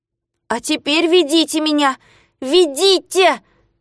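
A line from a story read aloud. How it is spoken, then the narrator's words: Shouting. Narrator (Russian): кричал Незнайка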